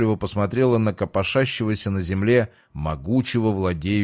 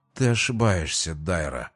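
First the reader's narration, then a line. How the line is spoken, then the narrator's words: Mutter. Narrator (Russian): пробормотал Кай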